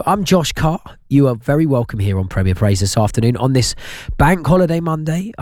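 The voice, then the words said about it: Hoarse, worn-out voice. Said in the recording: “as you can tell from my voice, I went quite hard... I sound worse than I am”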